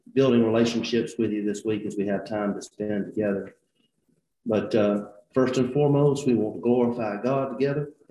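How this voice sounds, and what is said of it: Hoarse, strained, partly lost voice. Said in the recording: “If you're wondering about my voice, I've lost my voice from yelling at camp all last week ... hopefully as we get through this week, my voice will come back.”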